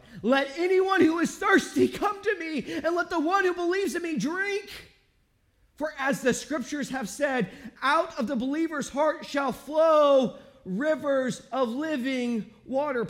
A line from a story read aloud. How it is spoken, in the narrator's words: Jesus was standing there, he cried out